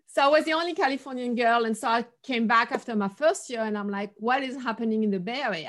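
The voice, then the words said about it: French accent. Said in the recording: “originally from Paris, if you wonder about the accent”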